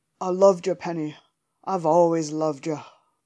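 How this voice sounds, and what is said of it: Poor attempt at male Australian accent. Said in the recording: “the most terrible impression ever... he has an Australian accent, and I absolutely cannot do a male Australian accent”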